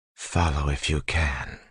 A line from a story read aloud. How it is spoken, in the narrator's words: whispered